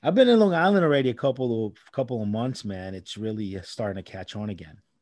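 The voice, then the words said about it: New York accent. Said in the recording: “You said it with that New York accent.”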